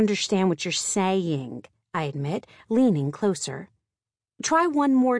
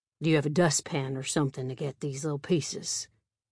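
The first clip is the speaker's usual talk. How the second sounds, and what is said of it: Slow Southern drawl. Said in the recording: “his drawl ... He may talk a little funny ... his southern charm”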